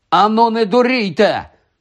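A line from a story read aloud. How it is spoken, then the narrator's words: Shouting. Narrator (Ukrainian): крикнув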